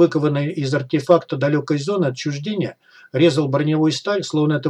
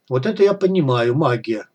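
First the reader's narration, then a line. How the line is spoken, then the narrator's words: Sighed. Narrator (Russian): вздохнул Тестомест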